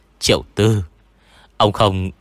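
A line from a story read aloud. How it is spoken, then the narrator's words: Cold reply. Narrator (Vietnamese): Kẻ bị lão gọi là An Quỷ Tử lạnh lùng trả lời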